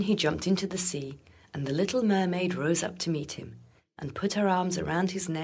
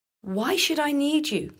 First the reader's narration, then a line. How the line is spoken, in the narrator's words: cried the fisherman